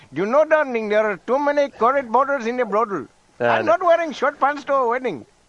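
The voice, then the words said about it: Put-on Indian accent. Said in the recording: “an Indian accent”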